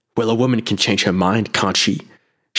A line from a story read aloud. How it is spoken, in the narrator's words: She snapped